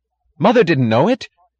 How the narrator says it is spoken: cried Philip

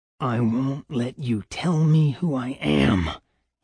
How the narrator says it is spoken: he breathed

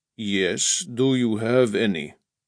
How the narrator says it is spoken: Stalin said in a low, pleasant voice

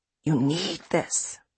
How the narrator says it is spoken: she whispers

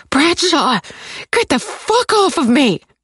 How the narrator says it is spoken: I scream

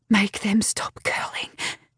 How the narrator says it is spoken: whisper

